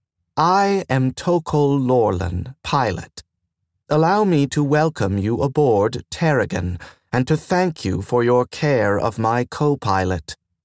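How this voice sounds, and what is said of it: Mellow female voice, light lilting accent. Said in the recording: “The voice was mellow and female. She spoke Terran with a light, lilting accent.”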